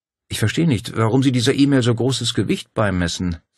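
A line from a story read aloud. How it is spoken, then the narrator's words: Plain. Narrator (German): sagte Claudia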